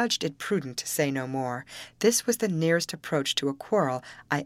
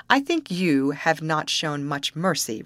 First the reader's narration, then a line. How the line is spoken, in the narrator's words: replied she, with a short, bitter laugh